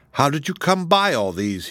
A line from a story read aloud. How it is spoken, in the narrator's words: he gasped, as soon as he could speak